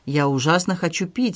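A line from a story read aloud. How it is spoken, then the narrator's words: Angry. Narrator (Russian): сердито сказала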